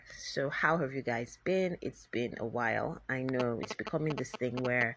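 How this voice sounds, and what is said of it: Voice sounding a bit funny. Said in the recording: “my voice is sounding a bit funny, I just woke up from a very good nap or sleep”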